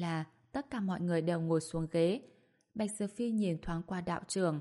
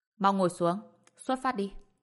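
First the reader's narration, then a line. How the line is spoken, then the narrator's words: Cold order. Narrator (Vietnamese): Lương Vị Siêu lạnh lùng, sau đó nói thêm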